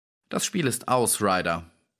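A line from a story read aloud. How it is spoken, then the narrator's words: Calm. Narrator (German): sagte Holmes ruhig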